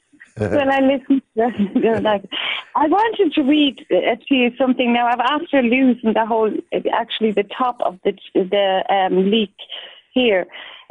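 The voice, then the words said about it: Austrian accent. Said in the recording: “I love that accent, that Austrian accent.”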